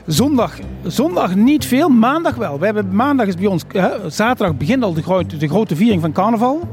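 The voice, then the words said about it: Limburg Dutch regional accent. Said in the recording (Dutch): “vanuit Limburgse. dat horen we natuurlijk aan uw accent.”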